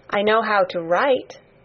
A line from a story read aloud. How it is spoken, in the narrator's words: Mary answered